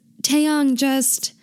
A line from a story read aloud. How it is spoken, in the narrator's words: he yells